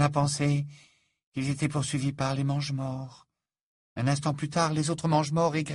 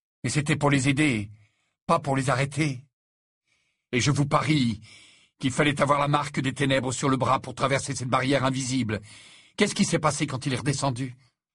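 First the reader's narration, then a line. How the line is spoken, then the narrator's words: Fierce. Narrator (French): dit Harry d'un ton féroce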